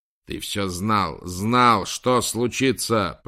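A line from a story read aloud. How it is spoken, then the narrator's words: Bodyguard's growl. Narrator (Russian): прорычал телохранитель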